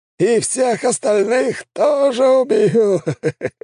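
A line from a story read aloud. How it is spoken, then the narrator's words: Loud laughing, air mage. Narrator (Russian): расхохотался маг воздуха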